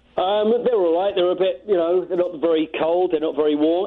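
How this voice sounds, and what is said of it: Cockney accent. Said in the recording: “your Cockney accent ... They seem to love your Cockney accent.”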